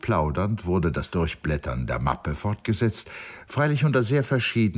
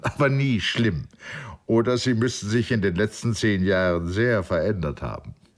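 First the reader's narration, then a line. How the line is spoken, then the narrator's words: Laughing. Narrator (German): lachte Gordon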